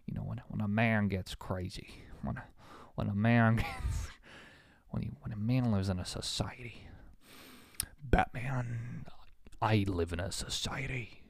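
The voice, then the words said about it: Poor Joker character voice. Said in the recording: “my terrible Joker impression”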